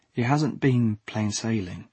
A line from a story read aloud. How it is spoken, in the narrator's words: he leaned in and dropped his voice